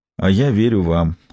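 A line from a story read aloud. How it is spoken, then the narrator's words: Nearly calm. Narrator (Russian): произнес Бувар почти спокойно, выпустив пар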